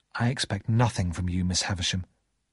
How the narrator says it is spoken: I said quietly

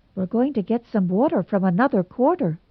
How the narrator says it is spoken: said Anne rather anxiously

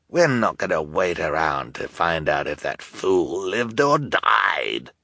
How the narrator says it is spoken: Olaf snarled

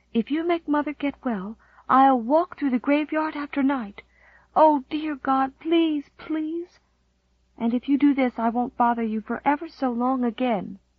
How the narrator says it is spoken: she whispered

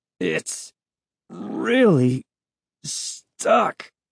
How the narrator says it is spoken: Uncle Ben groaned

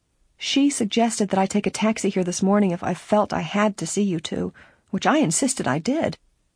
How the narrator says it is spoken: Laura said, grinning cheerfully

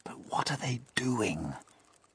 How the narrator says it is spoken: the old green grasshopper whispered

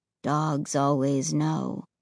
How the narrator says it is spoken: Ray said in a low, flat tone

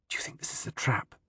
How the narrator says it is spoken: she fiercely whisper

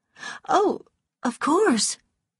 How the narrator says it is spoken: cried Melanie

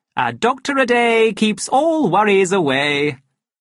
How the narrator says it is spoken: he added cheerfully

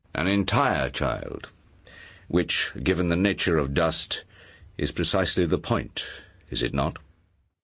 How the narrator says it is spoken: Lord Asriel said calmly

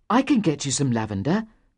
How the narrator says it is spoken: said Aaron eagerly

